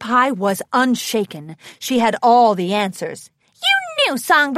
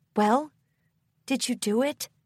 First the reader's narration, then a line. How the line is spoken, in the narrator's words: She asked sadly